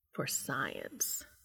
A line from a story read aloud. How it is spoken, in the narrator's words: Castiel agrees huskily